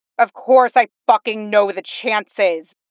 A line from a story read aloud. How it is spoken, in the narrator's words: Jason snarls back